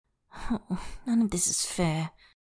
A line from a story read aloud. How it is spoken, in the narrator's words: Tangfan murmurs, that little whine he sometimes gets